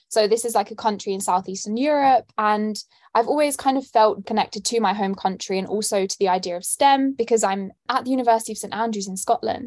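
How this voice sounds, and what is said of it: London accent. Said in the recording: “I'm born and raised in London, as you can tell by my accent.”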